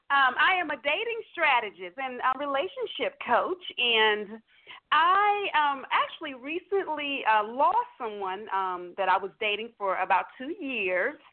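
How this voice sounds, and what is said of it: Southern American twang. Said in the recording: “twang, that's what it is, that southern twang”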